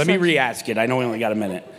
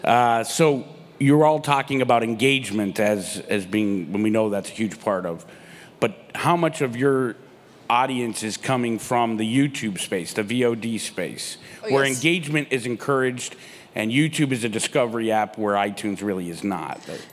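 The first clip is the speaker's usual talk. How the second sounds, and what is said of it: Radio announcer voice. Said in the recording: “Put on my radio voice.”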